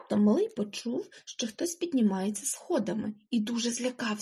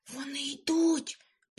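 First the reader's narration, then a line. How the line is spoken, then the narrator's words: Whisper. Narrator (Ukrainian): прошепотів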